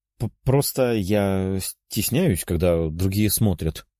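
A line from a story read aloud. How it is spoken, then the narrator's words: Purred by young woman. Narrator (Russian): промурлыкала девушка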